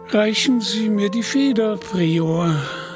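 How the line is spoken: Bishop sighing. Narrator (German): seufzte der Bischof

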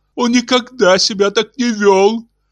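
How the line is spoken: Sobbing, repeating. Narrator (Russian): рыдая твердила Лаура

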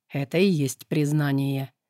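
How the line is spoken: Low voice. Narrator (Russian): низким голосом отозвался демон

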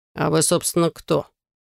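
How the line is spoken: Gloomy question. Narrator (Russian): мрачно спросил Алекс

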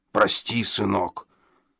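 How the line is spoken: Hoarse apology. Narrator (Russian): хрипло повинился он

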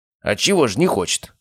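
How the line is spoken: Wry snort. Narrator (Russian): хмыкнул Обухов

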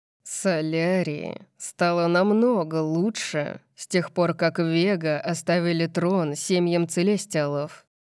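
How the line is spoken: Growling. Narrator (Russian): прорычал Сет

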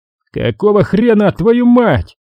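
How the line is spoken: Hurried shout. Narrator (Russian): только и успел крикнуть Виктор

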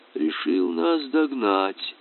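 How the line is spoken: Thoughtful. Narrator (Russian): задумчиво сказал капитан

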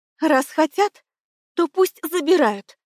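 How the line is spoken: Trembling voice. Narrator (Russian): дрожащим голосом отвечала я

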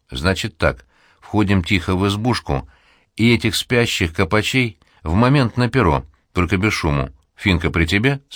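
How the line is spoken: Plain. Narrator (Russian): спросил Рябой

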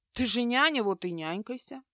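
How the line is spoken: Calm reminder. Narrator (Russian): спокойно напомнил Генри

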